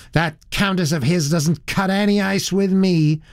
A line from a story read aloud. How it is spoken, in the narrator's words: said the girl in a rather high, shrill voice